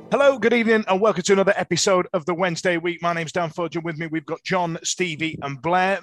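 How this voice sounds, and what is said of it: Slightly hoarse, rough voice. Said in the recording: “sounding a little bit hoarse, a little bit ropey ... the bad throat ... Spanish throat”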